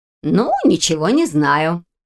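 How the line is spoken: Snorting. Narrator (Russian): хмыкнула Мэг

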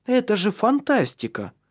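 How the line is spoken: Exclaiming. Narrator (Russian): воскликнула Ирия

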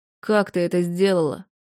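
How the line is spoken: Strained, happy, incredulous. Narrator (Russian): Наконец выдавил он, расплываясь в совершенно счастливой и немного недоверчивой улыбке

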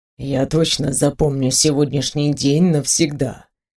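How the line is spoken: Whisper. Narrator (Russian): прошептал Антуан

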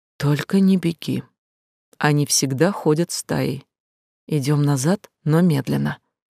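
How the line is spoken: Hoarse whisper. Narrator (Russian): Сиплым шепотом брат ответил

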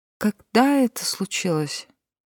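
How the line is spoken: Forced out with difficulty. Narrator (Russian): смогла выдавить Дилейне

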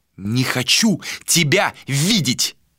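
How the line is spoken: Through gritted teeth. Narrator (Russian): Процедил Адер

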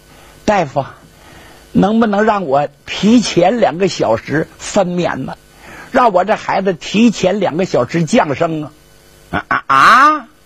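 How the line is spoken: Anxious pleading. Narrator (Chinese): 这孕妇啊有点着急了，就哀求大夫

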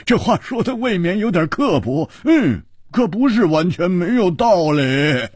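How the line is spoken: Loud laughter. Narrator (Chinese): 胡铁花大笑

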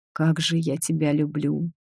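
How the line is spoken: Whispered. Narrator (Russian): прошептал он

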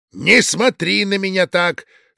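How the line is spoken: Stern shout. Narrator (Russian): строго прикрикнул он

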